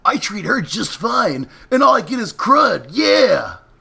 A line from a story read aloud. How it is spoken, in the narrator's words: He growled